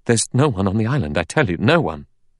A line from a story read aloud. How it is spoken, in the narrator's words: Armstrong said in a trembling voice